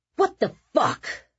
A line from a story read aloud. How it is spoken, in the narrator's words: Nick yelled